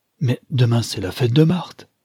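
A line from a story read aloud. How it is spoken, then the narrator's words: Man exclaiming. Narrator (French): s'écria le digne homme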